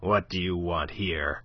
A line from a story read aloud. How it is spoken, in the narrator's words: growled Monsieur de Kercadiou